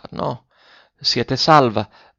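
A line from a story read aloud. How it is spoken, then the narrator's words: Faint weak voice. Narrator (Italian): disse Ferruccio con voce fioca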